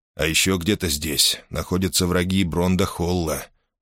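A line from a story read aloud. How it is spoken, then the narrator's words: Gloomy, to himself. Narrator (Russian): мрачно напомнил себе Мейсон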